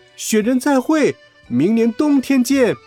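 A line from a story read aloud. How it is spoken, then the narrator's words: Loud shout. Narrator (Chinese): 回过头去大声喊道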